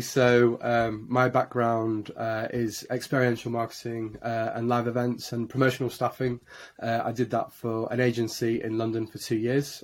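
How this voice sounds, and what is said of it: Yorkshire English accent. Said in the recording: “As you can probably hear from my accent, I'm a born and bred Yorkshireman, born in Leeds”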